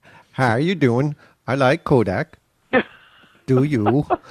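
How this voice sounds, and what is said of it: Mock Danish accent. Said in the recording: “I'm not going to do the voice ... How does the voice go? ... I don't know how Denmark goes”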